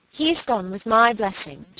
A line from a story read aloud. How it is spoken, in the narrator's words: she cried